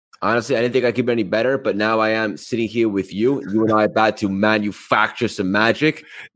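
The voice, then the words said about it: Thick New York accent. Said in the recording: “somewhere from uptown New York or something, man, because that accent is thick, man ... The accent is so thick.”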